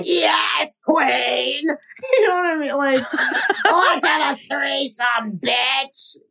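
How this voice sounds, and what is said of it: Imitates another person's voice. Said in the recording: “It's a really good imitation... Really good imitation... I feel like that's a beautiful impression”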